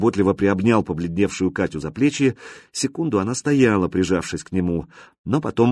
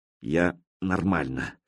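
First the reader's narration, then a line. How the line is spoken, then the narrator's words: Through gritted teeth. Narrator (Russian): сказала рыжая сквозь зубы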